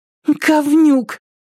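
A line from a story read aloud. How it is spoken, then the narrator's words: Breathless exhale. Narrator (Russian): выдохнула Триша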